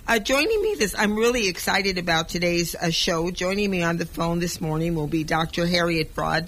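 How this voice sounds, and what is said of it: Rough, hoarse voice. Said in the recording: “my voice sounds a little rough to you, I had laryngitis ... I kind of lost my voice ... so it's a little bit rough”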